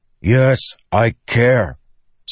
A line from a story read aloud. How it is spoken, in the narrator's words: Sa snapped